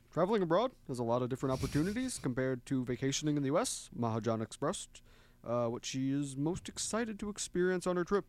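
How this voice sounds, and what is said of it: Barack Obama impression. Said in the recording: “do a good impression? ... I could try to do like Obama.”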